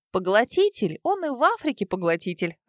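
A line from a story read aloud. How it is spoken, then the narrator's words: Laughing. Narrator (Russian): рассмеялась Света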